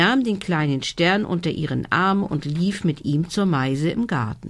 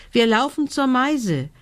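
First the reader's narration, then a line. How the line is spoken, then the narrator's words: Call. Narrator (German): rief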